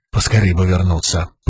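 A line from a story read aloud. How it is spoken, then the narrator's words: Muttering. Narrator (Russian): пробормотал он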